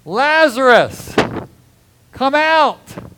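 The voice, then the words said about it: Loud shouted cry. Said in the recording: “Jesus cried in a loud voice ... I just had to do that to wake everybody up ... he cried out in a loud voice ... that shout”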